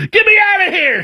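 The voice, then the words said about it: Screaming. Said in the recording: “I'm screaming”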